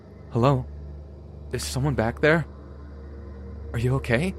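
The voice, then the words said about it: Shaking, frightened voice. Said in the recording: “I spoke up again in a shaking voice.”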